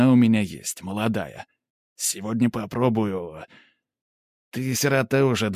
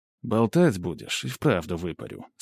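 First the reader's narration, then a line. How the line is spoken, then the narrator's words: Calm reply. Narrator (Russian): спокойно отзываюсь я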